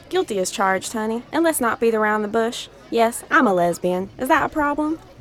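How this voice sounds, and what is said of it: Southern American accent. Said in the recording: “a Caucasian woman with a Southern American accent”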